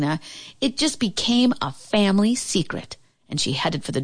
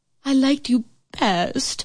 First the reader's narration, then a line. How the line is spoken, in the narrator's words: whined the queen